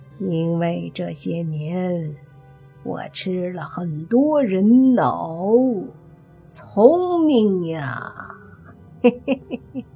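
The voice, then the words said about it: Crow demon voice, sneering laugh. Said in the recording (Chinese): “乌鸦精嘿嘿一笑，说道 ... 乌鸦精说着，还发出两声乌鸦的叫声，好像嘲讽莫凡一样”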